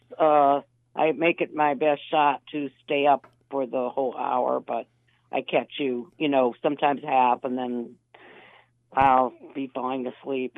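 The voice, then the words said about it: Tired, sleepy voice. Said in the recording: “as you could tell by my voice, I'm really stretching it to stay up late”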